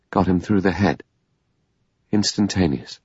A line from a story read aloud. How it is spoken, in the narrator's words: The doctor said, still in the same lifeless voice